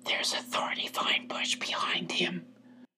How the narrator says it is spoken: He whispered to Sylvie

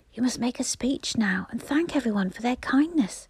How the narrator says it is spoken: whispered the station master in Peter's ear

